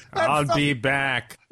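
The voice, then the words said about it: Heavy Austrian accent impression. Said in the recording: “very heavy accent... Like a Schwarzenegger.”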